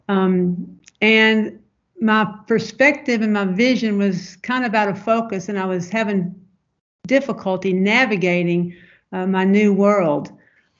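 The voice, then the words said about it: Southern American accent. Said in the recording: “my Southern lenses, as you can hear in my voice”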